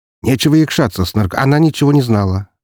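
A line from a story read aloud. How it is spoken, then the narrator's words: Sharp interruption. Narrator (Russian): резко перебил я его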